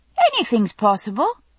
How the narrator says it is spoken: I said cheerfully

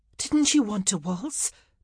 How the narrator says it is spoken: Penelope asked breathlessly

